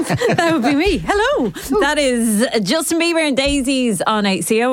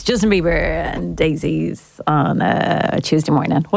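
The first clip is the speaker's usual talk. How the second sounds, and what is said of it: Radio DJ voice. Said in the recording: “I went straight into my like DJ voice.”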